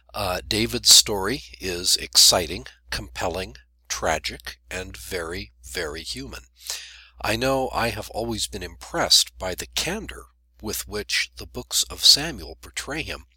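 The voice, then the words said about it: Congested, unwell-sounding voice. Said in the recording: “I'm coming off a cold at the moment, so I'm not in my usual voice this time.”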